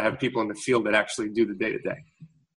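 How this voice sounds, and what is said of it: Fast-talking New York accent. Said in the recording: “coming from New York, where, as you can tell, I talk fast... fast-talking New Yorker”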